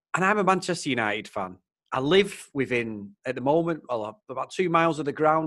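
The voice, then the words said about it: Mancunian English accent. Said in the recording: “my Mancunian accent”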